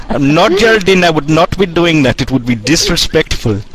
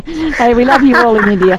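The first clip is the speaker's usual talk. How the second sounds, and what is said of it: Put-on Indian accent. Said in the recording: “That's Indian accent, right?”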